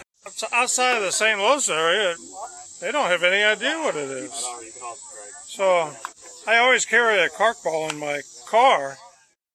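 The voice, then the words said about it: Heavy St. Louis accent. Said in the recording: “some heavy St. Louis accent”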